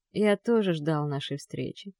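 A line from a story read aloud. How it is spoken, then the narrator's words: Soft. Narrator (Russian): произносит он мягко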